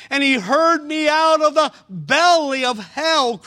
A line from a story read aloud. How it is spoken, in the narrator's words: cried I